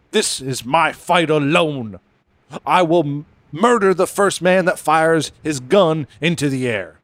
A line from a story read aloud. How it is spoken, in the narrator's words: In a moment of passion and nobility, Harden yelled to the mob